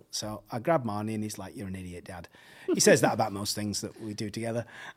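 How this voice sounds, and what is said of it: English accent. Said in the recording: “my English accent gave it away”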